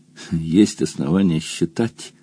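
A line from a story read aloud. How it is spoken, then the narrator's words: Moaning toadstool. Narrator (Russian): простонала поганка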